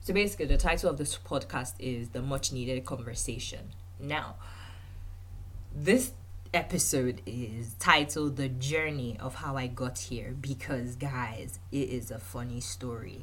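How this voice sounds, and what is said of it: Congested voice from a cold. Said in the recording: “I have a cold, so please excuse my voice”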